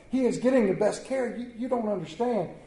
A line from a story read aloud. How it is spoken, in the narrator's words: she pleaded